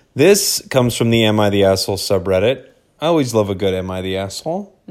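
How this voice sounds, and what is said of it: Weird, sick-sounding voice. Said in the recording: “if my voice is a little weird, that's why... I'm busy being sick”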